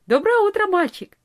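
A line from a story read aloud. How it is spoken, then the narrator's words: Cheerful. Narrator (Russian): весело сказала она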